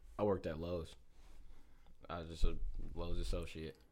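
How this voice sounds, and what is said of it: Flat, depressed-sounding delivery. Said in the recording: “The way you said that, you sound so depressed”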